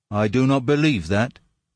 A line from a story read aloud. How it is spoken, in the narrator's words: he said